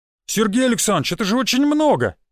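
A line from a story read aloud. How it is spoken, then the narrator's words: Shouted. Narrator (Russian): выкрикнул Юрий Колесов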